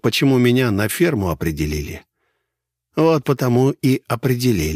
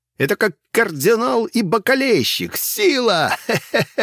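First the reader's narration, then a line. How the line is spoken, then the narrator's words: False, haughty laughter. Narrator (Russian): Он рассмеялся, но теперь в его смехе чувствовалась фальшь и высокомерие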